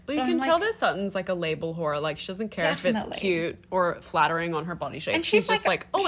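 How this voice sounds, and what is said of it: Usual voice. Nothing is said of it.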